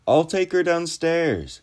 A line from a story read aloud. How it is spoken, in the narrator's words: I cried over her roaring